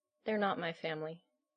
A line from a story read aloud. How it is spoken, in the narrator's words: Allison mumbled into the pale skin